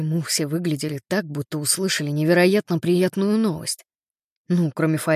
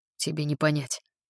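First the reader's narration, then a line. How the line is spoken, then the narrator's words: Muttered. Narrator (Russian): пробормотал он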